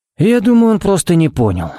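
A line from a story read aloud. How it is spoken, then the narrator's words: Sighing. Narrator (Russian): вздохнул Харри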